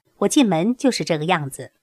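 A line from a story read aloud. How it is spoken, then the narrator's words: Smiling. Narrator (Chinese): 师傅却微笑着说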